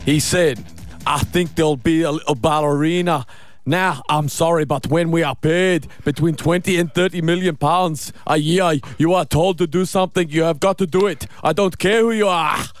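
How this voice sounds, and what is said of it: Poor Scottish accent impression. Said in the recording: “Jackie's Scottish accent... In the voice of Jackie Stewart... Awful.”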